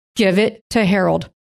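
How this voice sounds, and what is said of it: Stern dad voice. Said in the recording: “God used a dad voice.”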